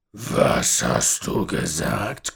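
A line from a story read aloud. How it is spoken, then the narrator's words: Old man growling. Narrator (German): knurrte der alte Mann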